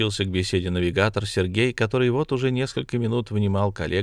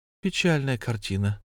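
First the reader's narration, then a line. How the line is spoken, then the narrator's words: Sighing. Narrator (Russian): вздохнула Василиса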